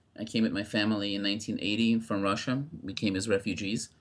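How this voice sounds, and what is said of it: Non-native English accent. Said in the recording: “As you may tell by my accent, I was not born in the United States.”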